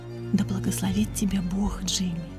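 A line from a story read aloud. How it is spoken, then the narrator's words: Whisper. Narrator (Russian): наклонившись, прошептала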